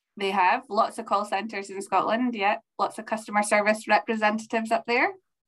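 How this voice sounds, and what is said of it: Scottish accent. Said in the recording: “there's not been enough Scottish voices on the podcast ... that accent out there ... people with Scottish accents”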